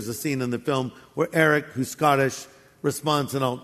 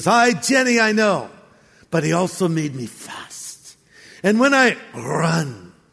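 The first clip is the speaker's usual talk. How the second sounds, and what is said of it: Attempted Scottish accent. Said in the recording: “I'll try to do it in my best Scottish accent... It's going to be really... not that good.”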